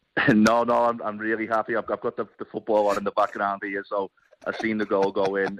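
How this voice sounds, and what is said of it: Speaks with a noticeable accent. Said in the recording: “with your accent”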